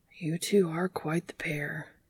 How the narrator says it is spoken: whispered as if talking to himself

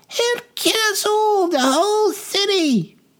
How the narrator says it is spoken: shrieked another

